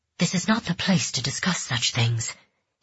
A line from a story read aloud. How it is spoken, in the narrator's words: he said in a harsh whisper